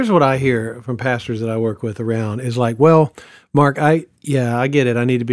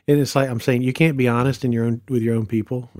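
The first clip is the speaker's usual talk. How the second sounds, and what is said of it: Sarcastic tone. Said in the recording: “I'm being sarcastic”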